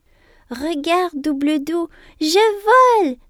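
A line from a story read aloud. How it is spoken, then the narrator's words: Piercing shout. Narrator (French): s'écrie Émilie de sa voix perçante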